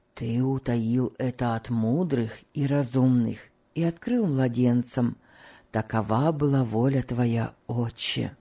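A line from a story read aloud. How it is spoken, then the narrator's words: Whisper. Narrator (Russian): прошептал Том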